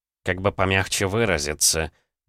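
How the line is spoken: Muttered. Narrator (Russian): пробормотал Валерьян

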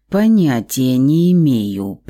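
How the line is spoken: Through gritted teeth. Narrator (Russian): процедил Громов

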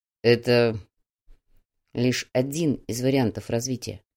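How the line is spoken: Quiet reply. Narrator (Russian): тихо ответил Фадеев

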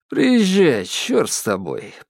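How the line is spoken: Almost cheerful. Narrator (Russian): почти весело сказал

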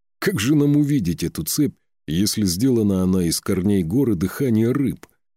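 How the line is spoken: Chuckling reply. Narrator (Russian): хохотнул, отвечая на вопрос

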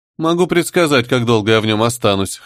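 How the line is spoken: Snorting. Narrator (Russian): хмыкнул Лас-Вегас

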